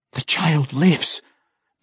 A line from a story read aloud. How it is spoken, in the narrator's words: Drizzt gasped